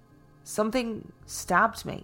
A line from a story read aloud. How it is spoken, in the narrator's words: stammered